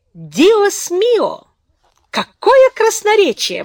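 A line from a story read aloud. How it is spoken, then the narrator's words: Exclaiming with mocking laughter. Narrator (Russian): воскликнула с издевательским смехом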